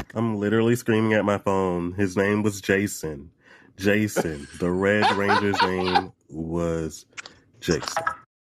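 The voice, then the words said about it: Speaks with a distinctive accent. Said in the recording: “I love this accent ... I like your accent, cutie.”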